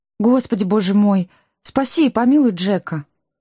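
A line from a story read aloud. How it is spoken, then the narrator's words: Suddenly plaintive girl. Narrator (Russian): Неожиданно жалобно заговорила девушка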